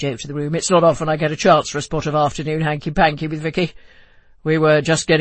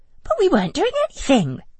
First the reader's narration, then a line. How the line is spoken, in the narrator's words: I squeaked